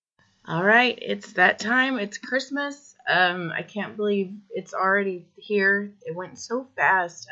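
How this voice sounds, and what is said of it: Losing voice, cracking like pubescent boy. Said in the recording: “losing my voice, so I sound like a prepubescent boy or a boy going through puberty”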